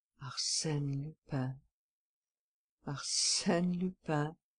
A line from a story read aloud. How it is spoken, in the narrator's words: he muttered